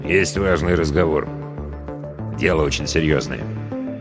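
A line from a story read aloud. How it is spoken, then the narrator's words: Quiet addition. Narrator (Russian): тихо добавил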